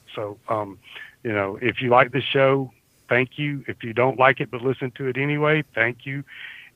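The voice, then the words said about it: Southern American accent. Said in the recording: “my Southern accent ... It's just hardwired into who I am”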